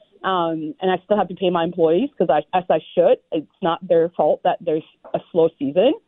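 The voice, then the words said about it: Stressed, strained voice. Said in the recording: “As you can hear from my voice, probably I'm a little bit stressed out”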